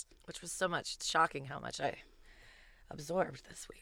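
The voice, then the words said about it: Slightly scratchy voice. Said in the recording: “My voice is a little scratchy today from women's marching.”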